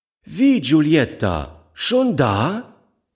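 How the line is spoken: Calling to child. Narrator (German): rief dem Kind zu

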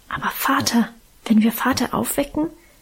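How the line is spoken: Fearful whisper. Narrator (German): wisperte ängstlich

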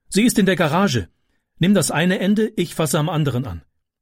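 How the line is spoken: Calling out. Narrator (German): rief sie

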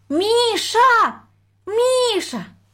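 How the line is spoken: Thin high call. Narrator (Russian): позвала она тоненьким голосом

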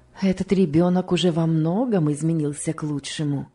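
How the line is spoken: Plain. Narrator (Russian): ответила мисс Офелия

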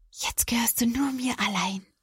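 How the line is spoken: Happy whisper. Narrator (German): Caroline lächelt glücklich und flüstert

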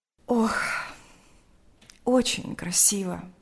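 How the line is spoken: Sighing. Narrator (Russian): сказала она, вздохнув

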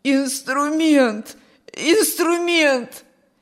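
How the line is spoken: Hoarse wheeze. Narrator (Russian): сипел Петр

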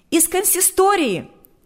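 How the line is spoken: Shouted. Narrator (Russian): выкрикнула она

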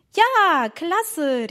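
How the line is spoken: Called out. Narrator (German): rief Emma

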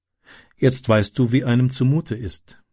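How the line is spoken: Calm. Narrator (German): sagte sie ruhig

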